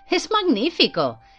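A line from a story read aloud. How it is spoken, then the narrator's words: Excited exclamation with clapping. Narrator (Spanish): exclamó dando palmas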